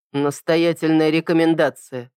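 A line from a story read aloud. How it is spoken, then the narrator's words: Dry reply. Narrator (Russian): сухо ответил я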